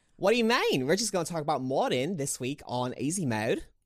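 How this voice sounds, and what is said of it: Put-on Australian accent. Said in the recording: “What's with the accent? ... Australian accent mod”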